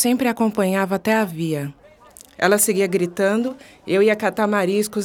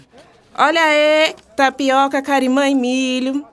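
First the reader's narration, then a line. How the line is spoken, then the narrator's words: Thin-voiced shouting. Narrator (Portuguese): gritando com sua voz fina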